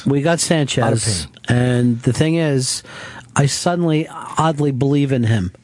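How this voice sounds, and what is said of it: Philadelphia-area accent. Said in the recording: “You got an accent? You know, are you from Philly? ... I'm from outside of Philly. I'm from Delaware County.”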